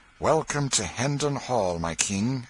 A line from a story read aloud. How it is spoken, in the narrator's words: exclaimed Miles